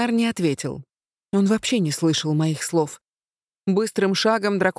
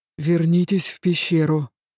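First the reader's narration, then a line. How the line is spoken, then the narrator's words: Tense command. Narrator (Russian): велел Авинар напряженным голосом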